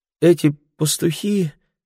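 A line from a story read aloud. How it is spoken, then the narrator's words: Exclaiming in weakening voice. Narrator (Russian): воскликнула слабеющим голосом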